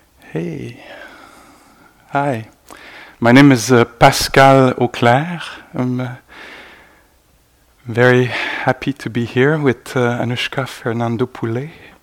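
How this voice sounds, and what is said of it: Slight French-Canadian accent. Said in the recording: “You might detect a little accent... I'm French-Canadian, Quebecois.”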